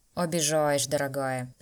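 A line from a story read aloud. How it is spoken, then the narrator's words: Snort. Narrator (Russian): Смедвик фыркнул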